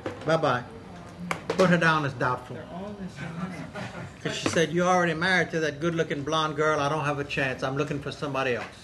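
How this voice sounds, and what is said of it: Cajun accent. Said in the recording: “maybe you recognize my Cajun accent.”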